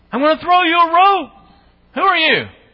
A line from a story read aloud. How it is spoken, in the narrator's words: his servant's yelling down